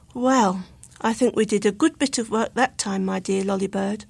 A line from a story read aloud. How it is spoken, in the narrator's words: Luke would give a sigh of satisfaction and say